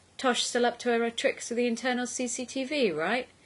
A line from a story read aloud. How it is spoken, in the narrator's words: laughed again